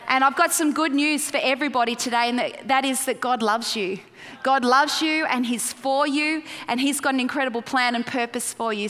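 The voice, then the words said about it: Australian accent. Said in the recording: “Can you understand my accent? I'm trying not to sound so Australian. Do I sound Australian? ... I just sound like a kind of just not quite right American”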